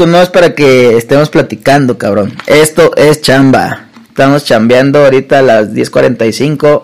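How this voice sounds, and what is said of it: Usual voice. Nothing is said of it.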